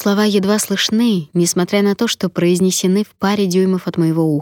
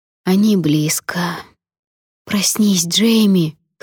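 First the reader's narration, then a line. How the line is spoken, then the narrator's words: Hoarse pleading. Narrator (Russian): хрипло молю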